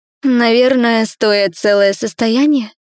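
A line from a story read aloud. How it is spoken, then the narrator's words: Admiring, breathless. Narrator (Russian): восхищенно выдохнула я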